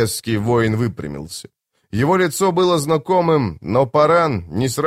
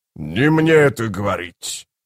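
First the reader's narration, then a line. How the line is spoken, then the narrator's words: Growl. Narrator (Russian): прорычал Кафал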